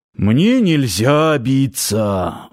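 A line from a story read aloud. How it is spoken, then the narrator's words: Sigh. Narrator (Russian): вздохнул Парсыкин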